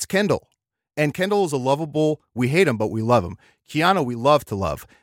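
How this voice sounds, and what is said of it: Usual voice. Nothing is said of it.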